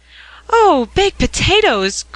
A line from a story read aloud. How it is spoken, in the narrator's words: cried Ben